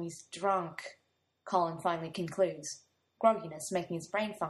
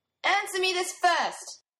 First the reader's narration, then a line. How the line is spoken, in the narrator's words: Bradley yells again